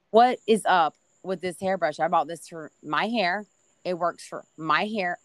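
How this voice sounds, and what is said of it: Southern American accent. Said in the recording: “I love the accent I hear, especially on that ... is that Southern coming out?”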